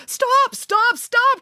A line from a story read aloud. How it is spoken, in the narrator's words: cried the attacker